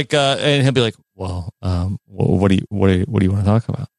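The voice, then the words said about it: Impression of a friend's voice. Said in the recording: “good Taryn impression”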